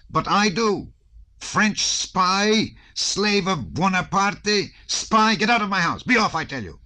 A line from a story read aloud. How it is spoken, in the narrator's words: shouted the prince